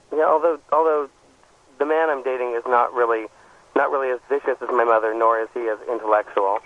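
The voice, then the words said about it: Strained, fading hoarse voice. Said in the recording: “I'm hearing something in your voice ... I'm losing my voice”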